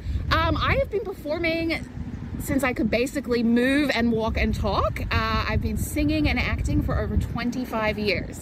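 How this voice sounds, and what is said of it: Slight Australian-Canadian hybrid accent. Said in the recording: “a little accent going on there... a little bit of an accent... originally from Sydney, Australia... a bit of a hybrid accent... a little bit of a mix”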